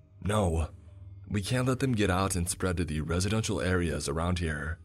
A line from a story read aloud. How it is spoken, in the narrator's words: I replied rather harshly